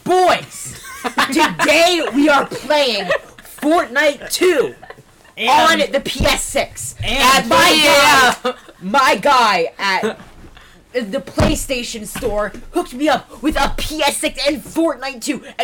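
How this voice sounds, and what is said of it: Hyped YouTuber voice. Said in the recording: “Or I could do a YouTube voice.”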